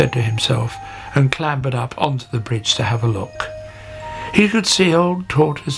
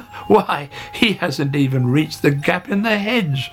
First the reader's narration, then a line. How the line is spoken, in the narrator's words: laughed Hare